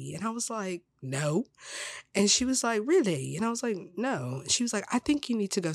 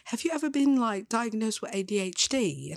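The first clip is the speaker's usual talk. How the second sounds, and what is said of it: Put-on British accent. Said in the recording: “I'm just going to talk in a British accent.”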